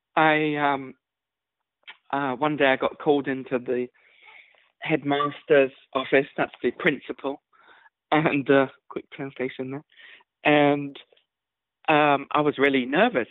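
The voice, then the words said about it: English accent. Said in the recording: “I, of course, grew up in England, as you can tell by the accent”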